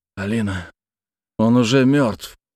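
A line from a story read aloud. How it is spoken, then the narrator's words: Hoarse. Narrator (Russian): хрипло сказал я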